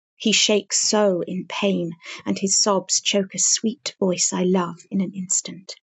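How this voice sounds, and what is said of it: British accent. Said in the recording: “it's just the British accent.”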